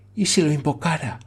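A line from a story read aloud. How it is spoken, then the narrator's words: Murmured. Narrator (Spanish): murmuró la señorita Campbell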